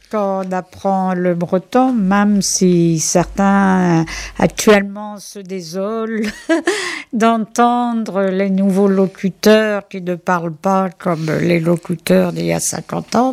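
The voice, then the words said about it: Pronounced regional French accent. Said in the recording (French): “j'ai un accent prononcé”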